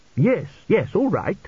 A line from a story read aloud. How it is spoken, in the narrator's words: snapped Tepic